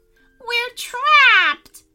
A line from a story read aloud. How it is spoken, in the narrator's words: cried the pixies